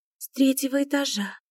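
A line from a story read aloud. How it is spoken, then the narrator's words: Quiet. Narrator (Russian): тихо ответила Васька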